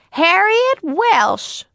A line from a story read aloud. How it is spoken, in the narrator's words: suddenly, very loudly